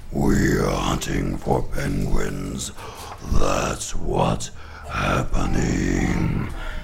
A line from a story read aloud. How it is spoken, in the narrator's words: They growled